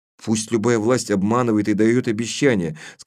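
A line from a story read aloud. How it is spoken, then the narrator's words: Plain. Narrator (Russian): сказал я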